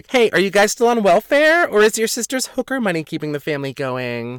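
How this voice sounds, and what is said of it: Exaggerated girly, feminine voice. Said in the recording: “I'd usually say something back in my girly voice”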